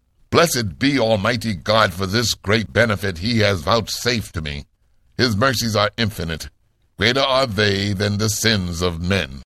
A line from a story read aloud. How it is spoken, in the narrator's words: he cried with a loud voice